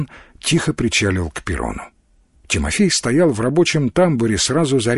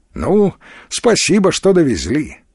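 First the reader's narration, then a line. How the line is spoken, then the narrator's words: Forced, unnatural cheerfulness. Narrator (Russian): бодро сказал Тимофей, и собственный голос показался ему противным и неестественным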